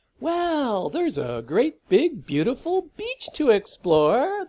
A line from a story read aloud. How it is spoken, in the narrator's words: the father announced brightly